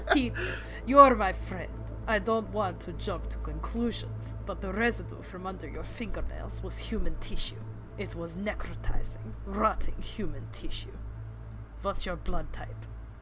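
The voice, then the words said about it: Put-on Russian accent. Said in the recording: “I'm gonna try a Russian accent.”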